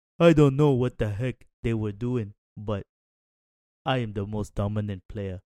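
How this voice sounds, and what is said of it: Bad Joel Embiid impression. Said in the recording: “That was really bad, by the way. ... That was a terrible Joel Embiid impression.”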